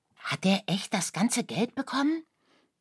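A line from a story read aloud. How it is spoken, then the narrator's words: Excited question. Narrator (German): fragte Oskar aufgeregt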